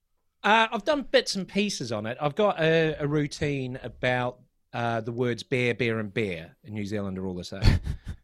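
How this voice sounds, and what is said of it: New Zealand accent. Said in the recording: “the Kiwi accent, man, it's especially on vowels.”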